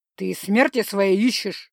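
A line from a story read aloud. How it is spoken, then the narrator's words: Sweet growl. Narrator (Russian): мило прорычал он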